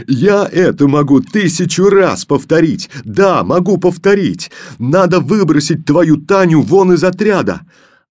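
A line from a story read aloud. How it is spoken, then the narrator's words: Shouting. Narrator (Russian): Он кричал на Колю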